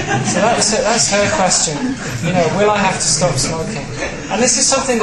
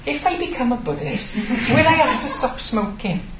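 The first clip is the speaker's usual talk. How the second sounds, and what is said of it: Put-on Welsh accent. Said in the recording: “I can do my mum's Welsh accent.”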